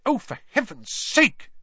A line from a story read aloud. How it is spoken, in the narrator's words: she snapped